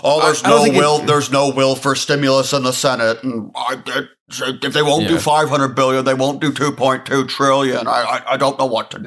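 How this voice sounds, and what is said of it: Imitates another person's voice. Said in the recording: “a really, really good Mitch McConnell impression ... I protrude my jowl”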